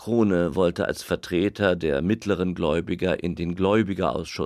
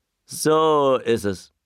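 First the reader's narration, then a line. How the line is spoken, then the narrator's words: Shouted. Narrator (German): einer rief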